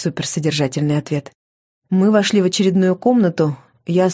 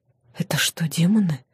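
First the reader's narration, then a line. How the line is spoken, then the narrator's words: Whispered question. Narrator (Russian): спросила почему-то шепотом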